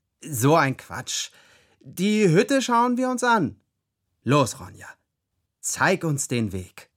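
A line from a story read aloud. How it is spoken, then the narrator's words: Loud. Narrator (German): sagte ich laut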